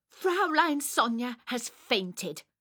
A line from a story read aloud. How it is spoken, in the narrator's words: I said crossly